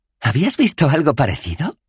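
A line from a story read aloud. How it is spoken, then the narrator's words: Laughing. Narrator (Spanish): rió Bethan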